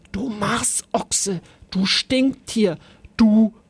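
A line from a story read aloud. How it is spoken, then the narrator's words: Very soft whisper. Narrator (German): flüsterte er ganz leise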